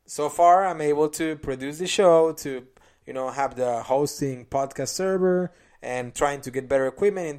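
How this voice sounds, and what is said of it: Speaks with a noticeable accent. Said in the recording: “just with my accent, it sucks”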